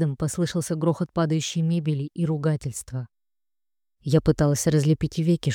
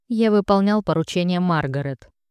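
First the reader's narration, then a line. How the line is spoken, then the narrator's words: Angry male reply. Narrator (Russian): зло ответил третий мужчина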